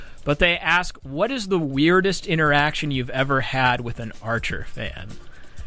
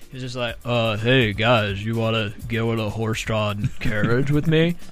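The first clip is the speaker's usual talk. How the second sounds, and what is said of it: Imitates a cartoon character's voice. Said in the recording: “That's my poor impersonation. ... Are you Archer? ... It's uncanny.”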